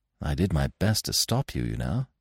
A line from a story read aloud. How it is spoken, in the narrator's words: I said gently